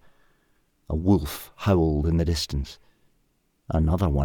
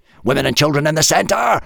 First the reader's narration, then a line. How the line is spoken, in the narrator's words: yelled